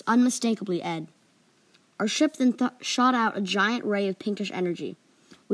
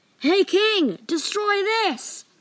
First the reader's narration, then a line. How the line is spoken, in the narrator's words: we heard someone scream